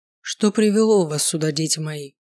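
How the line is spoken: Low velvety male question. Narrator (Russian): спросил он низким бархатистым голосом

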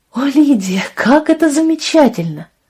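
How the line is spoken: Exclaiming. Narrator (Russian): воскликнула Лия

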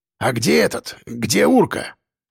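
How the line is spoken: Old man's hoarse rasp. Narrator (Russian): прохрипел дед

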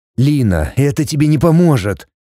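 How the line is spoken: Tired. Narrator (Russian): Он устало продолжил

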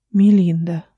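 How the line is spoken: Breathed out. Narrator (Russian): выдохнула она

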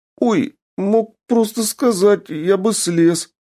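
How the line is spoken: Whining apprentice. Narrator (Russian): захныкал ученик

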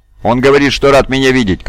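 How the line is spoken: Shouted. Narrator (Russian): крикнул Кайда Пашам

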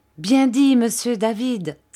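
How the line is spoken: Enthusiastic exclamation. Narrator (French): s'écria Ham avec enthousiasme

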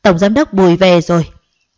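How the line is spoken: Group shouting. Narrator (Vietnamese): Họ vừa thấy ba người đã hét lên ngay

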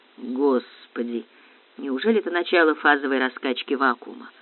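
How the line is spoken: Low voice. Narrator (Russian): вполголоса проговорила Баянова

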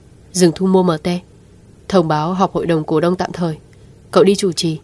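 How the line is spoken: Cold order over phone. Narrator (Vietnamese): Lãnh Tĩnh Hàn đợi điện thoại kết nối rồi lạnh lùng phân phó

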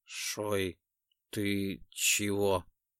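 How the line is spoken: Hoarse question. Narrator (Russian): хрипло спросил Декс

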